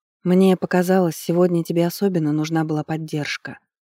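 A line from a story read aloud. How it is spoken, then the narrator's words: Quiet reply, priestess. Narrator (Russian): тихо ответила жрица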